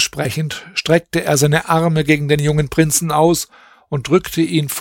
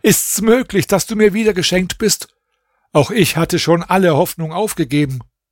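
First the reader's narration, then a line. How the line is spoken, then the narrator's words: King calling out. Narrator (German): rief der König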